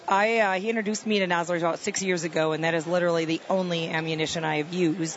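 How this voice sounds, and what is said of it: Midwestern Wisconsin accent. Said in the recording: “I'm from the Midwest, from Wisconsin. ... I couldn't tell by the accent. ... You betcha.”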